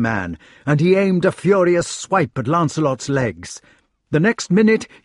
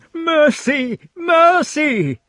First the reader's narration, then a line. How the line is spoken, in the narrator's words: The man went on wailing